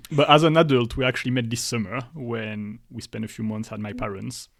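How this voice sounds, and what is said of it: Strong French accent in English. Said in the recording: “I still have a really strong French accent. Everyone knows where I'm coming from. I can't hide it.”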